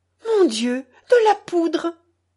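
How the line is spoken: Cry choked with emotion. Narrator (French): criait Mimi d'une voix suffoquée par l'émotion

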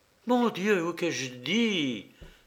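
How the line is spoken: Dismayed exclamation. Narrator (French): s'écria Mademoiselle Gondola

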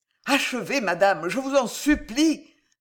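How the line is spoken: Breathless, agitated exclamation. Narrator (French): s'écria Marillac palpitant

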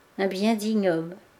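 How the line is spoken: Murmured. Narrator (French): murmura-t-elle

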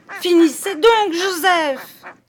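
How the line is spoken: Shouting. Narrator (French): criai-je

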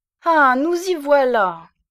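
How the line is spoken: Interrupting exclamation. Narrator (French): s'écria-t-elle en l'interrompant

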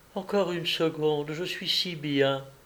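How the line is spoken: Soft murmur. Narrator (French): Elle murmura

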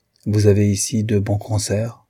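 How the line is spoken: Icy tone. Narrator (French): dit-elle d'un ton glacial

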